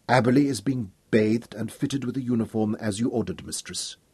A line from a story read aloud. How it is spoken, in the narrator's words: Sukina answered softly